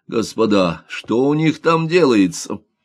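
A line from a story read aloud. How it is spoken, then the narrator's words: Someone shouting. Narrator (Russian): закричал кто-то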